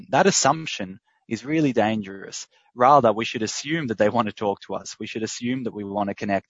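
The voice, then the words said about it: Australian accent. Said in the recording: “in Australia, as you can tell by my accent”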